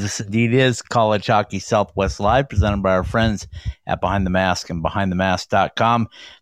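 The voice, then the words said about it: Slightly raspy, hoarse voice. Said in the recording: “battling a bout of pneumonia, I might add. So if my voice sounds a little raspy or I cough and hack on you”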